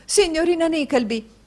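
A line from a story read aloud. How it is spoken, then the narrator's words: Shouted. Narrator (Italian): gridò Madama Mantalini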